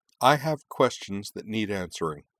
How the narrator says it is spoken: she said flatly

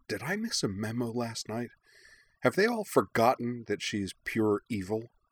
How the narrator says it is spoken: Suki leaned toward Katara and muttered

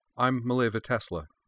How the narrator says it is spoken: Maleva said

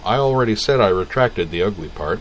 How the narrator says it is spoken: He laughed, but not harshly, and said

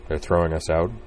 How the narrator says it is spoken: he murmured with a faint smile

